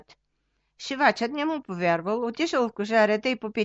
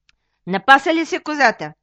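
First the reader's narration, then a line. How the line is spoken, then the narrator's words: Old man, stern. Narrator (Bulgarian): попитал строго старият шивач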